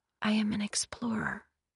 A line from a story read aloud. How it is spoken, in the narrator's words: she whispered